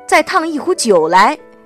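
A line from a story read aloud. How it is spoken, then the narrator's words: Woman loudly hollering. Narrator (Chinese): 一个女人大声吆喝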